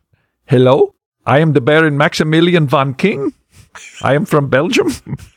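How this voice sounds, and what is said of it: Put-on foreign accent. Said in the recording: “Let's hear the accent a little bit.”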